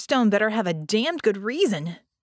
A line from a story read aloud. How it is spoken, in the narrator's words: she snapped